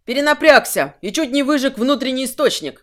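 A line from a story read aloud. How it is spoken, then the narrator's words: Shout. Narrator (Russian): крикнул он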